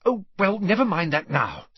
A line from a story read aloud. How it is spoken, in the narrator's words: said Hermione hastily